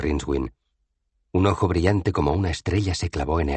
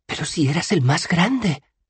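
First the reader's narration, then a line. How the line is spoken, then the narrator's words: Exclaiming. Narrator (Spanish): exclamó Bethan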